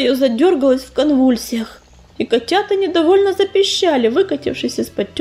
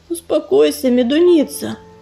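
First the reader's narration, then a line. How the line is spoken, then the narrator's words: Gentle rumbling purr. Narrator (Russian): ласково заурчал Борый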